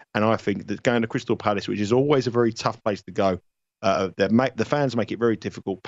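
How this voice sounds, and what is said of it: London English accent. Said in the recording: “my London accent”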